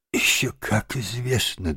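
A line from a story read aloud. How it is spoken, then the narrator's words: Small trembling voice. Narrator (Russian): дрожащим голоском подтвердил крот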